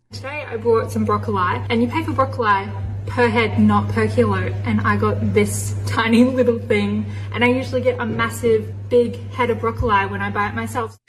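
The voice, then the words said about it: Woman with Australian accent. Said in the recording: “I love her accent... An Australian accent, that's a hot accent”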